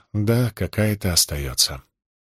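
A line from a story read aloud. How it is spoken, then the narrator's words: Sad whisper. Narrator (Russian): Клео грустно прошептала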